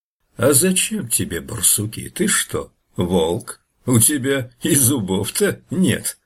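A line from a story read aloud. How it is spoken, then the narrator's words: Laughing bear. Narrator (Russian): медведь засмеялся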